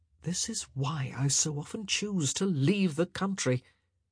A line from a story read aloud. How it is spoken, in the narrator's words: Colin turned to Penelope and murmured